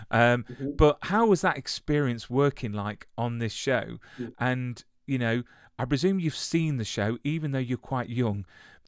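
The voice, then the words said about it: English Midlands accent. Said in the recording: “He's obviously got a more of a London accent than me. I've got a Midlands one.”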